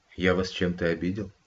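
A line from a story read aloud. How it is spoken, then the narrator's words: Quiet question. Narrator (Russian): тихо уточнил он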